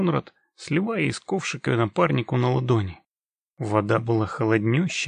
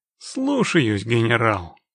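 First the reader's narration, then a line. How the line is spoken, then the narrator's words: Mock-solemn snort. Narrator (Russian): хмыкнул Геральт с необходимой долей пафоса в голосе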